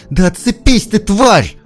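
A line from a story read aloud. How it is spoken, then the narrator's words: Losing control, screaming. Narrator (Russian): Не выдержав, заорала Светка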